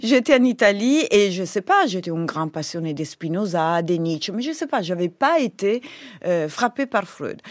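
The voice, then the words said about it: Italian accent speaking French. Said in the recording (French): “Vous étiez en Italie ? ... On entend votre accent”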